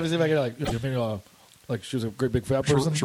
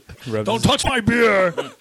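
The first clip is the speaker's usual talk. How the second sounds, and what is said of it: Bad imitation of a film villain. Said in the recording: “worst Buffalo Bill impression”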